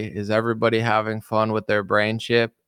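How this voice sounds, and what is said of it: Put-on Australian accent. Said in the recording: “in a very nice Australian accent, mate”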